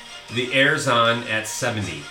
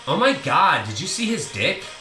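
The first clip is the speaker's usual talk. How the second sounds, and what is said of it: Valley Girl accent. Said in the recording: “Say a sentence with a Valley Girl accent.”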